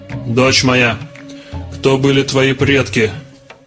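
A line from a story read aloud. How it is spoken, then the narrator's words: Stern, commanding. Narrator (Russian): Верховный жрец обратился к Сиате строго и властно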